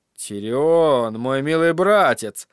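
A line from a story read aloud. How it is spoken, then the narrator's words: Gloomy. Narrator (Russian): заметил он мрачно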